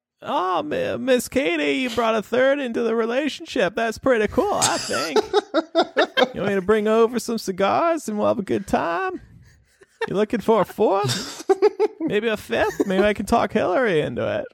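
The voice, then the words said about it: Bill Clinton impression. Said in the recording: “your Bill Clinton impersonation again? That was pretty great.”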